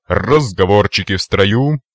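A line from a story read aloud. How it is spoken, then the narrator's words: Cheerful growl. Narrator (Russian): весело рыкнул майор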